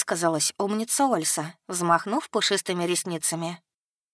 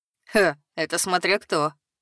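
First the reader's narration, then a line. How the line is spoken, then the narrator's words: Short laugh. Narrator (Russian): хохотнул Картон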